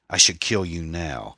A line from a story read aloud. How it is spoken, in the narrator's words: he spat